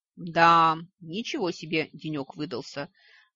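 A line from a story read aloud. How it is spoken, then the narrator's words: Sighing. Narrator (Russian): вздохнула правая полушария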